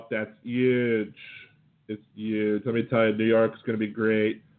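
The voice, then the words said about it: Imitates another person's voice. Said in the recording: “As Trump would say himself ... my Trump imitation.”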